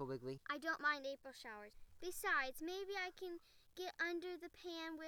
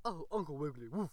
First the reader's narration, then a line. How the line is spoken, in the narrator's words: barked the ragged but polite tramp dog